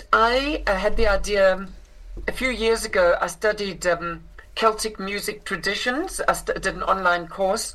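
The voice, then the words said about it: South African accent. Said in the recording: “I grew up in South Africa, which is where I inherited this accent.”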